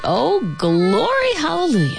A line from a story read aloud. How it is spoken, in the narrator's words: she moaned in time with the beat